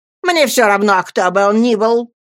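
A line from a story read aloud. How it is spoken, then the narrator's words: Old woman shouting. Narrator (Russian): кричала бабушка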